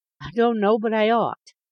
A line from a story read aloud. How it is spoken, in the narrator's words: murmured she